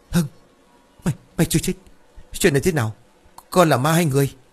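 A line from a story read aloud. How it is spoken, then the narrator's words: Stammering. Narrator (Vietnamese): Ông Lãng lắp bắp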